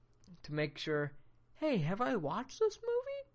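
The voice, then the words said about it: Voice suddenly goes high-pitched. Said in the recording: “I don't know why my voice got really high.”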